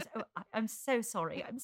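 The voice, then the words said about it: Put-on British accent. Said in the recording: “I do a better accent than Renee Zellweger ... British accent”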